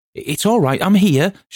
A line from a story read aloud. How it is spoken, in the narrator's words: shouted Nat